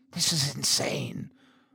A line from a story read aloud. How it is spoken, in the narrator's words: I whispered